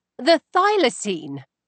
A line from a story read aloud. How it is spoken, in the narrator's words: I exclaimed